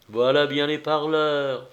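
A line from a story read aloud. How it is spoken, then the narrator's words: Low voice. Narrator (French): fit-il à mi-voix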